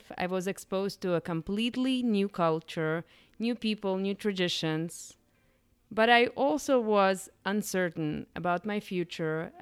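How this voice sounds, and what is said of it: Eastern European accent. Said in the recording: “You have also probably figured out by my accent that I was not born here. ... I immigrated from Eastern Europe, Ukraine”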